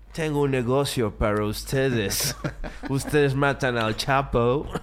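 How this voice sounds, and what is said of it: Put-on foreign accent. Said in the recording (Spanish): “¿De dónde es ese acento ... ¿De cuál de todas las nacionalidades que se le atribuyeron a ... es ese acento?”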